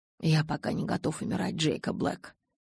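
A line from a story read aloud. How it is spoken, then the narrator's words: Whispered. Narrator (Russian): прошептал Эдвард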